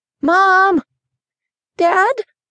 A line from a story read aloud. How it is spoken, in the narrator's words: RJ called out again